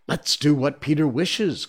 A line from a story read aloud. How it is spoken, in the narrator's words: cried the simple boys